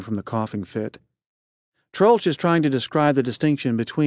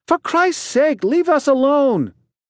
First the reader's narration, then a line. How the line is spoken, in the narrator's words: she shrieks at Pemulus